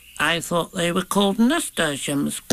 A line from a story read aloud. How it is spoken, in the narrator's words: said timidly as he went on jumping